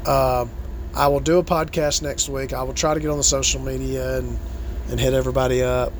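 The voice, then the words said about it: Strained, damaged, low-energy voice. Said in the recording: “My voice is still fucked up. I still lack a lot of energy”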